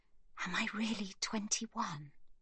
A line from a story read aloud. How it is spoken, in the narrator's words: She whispers into Livy's ear